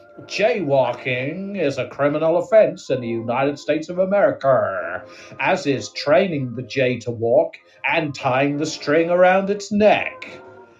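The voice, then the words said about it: American accent with strong final R's. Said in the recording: “I just like the way you say the R's on the ends of things, like Coca-Cola and America ... That's my accent”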